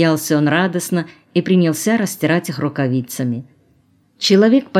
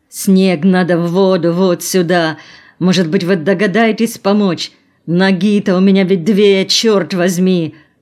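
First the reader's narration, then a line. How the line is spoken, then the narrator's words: Groaning. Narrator (Russian): простонал Колосов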